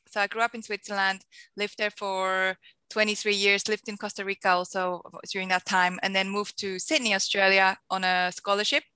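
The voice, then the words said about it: Strong Swiss accent in English. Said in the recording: “I am a Swiss Australian, hence my very big accent”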